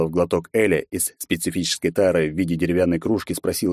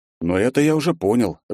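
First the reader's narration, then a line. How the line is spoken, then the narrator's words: Relaxed snort. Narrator (Russian): расслабленно хмыкнул я в ответ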